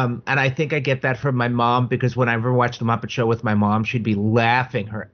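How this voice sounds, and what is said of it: Usual voice. Nothing is said of it.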